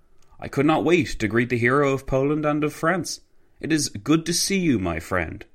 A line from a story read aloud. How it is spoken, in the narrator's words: Piłsudski exclaimed